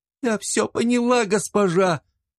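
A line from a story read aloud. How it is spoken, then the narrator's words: Sobbing, choked reply. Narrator (Russian): Рыдая и глотая слова и слезы, с трудом ответила девушка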